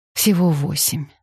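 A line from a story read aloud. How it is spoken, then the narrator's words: Relieved exhale. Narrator (Russian): сказала она и облегченно выдохнула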